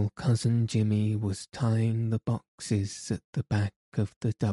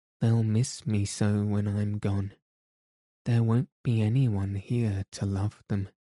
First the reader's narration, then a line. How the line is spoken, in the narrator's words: she said wistfully